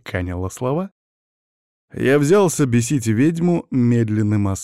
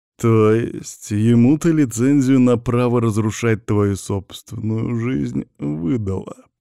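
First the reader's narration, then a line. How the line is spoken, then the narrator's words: Mocking, savoring drawl. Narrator (Russian): протянул я насмешливо, смакуя каждое слово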